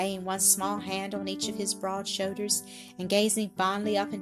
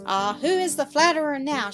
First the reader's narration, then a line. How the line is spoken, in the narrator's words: She cried, clapping her hands and laughing gleefully